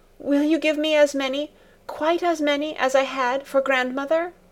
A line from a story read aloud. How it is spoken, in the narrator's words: she kept saying to Clara, her voice broken with her gradually subsiding sobs